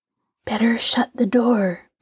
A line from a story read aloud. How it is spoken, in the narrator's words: breathed Henry